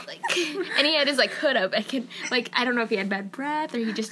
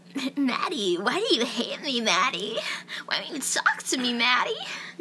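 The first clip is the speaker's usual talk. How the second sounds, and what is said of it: Girly, effeminate imitation of a man. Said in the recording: “He sounded gay as fuck ... gonna do an impression, my best impression ... but more like, girly”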